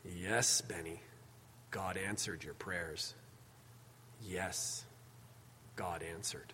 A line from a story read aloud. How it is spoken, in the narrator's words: The grandfather, with tears in his own eyes, looks down at Benny and quietly says